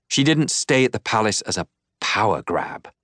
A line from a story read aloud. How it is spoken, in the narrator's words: I scoff